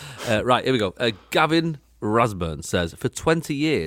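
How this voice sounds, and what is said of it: Usual voice. Nothing is said of it.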